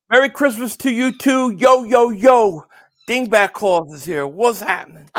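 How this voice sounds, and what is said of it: Santa Claus character voice. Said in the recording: “his Santa impression”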